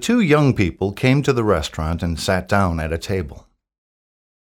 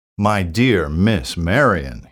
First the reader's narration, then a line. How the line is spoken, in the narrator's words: exclaimed